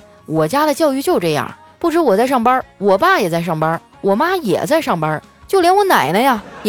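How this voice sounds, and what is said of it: Usual voice. Nothing is said of it.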